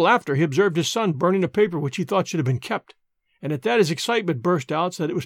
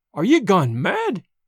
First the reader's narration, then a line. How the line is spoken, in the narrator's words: he cried